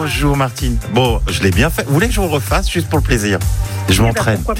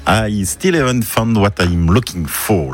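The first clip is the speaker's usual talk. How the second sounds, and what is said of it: Put-on English accent. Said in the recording (French): “mon accent anglais ... C'est pas mal, c'est pas mal.”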